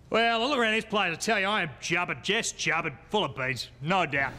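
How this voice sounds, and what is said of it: Thick Australian accent. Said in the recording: “speak Australian? ... Your accent, it's rather thick.”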